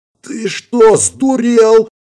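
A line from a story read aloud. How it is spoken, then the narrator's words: Hoarse rasp. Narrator (Russian): прохрипела Ирина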